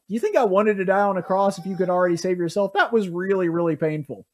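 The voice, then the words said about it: Imitates another person's voice. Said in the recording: “I launched into a Jerry Seinfeld impersonation there”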